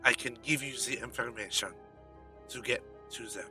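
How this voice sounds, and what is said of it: Suave put-on character accent. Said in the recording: “It's the accent ... he sounds too suave”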